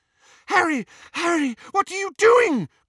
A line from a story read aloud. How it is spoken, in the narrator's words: cried Hermione